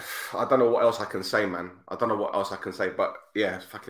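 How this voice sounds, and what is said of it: Emotional, choked-up voice. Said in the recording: “I'm just getting all teary-eyed, a lump in my throat. I'm fucking struggling here.”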